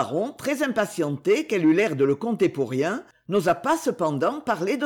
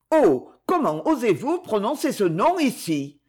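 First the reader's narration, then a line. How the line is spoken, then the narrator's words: Vehement exclamation. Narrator (French): s'écria-t-elle avec véhémence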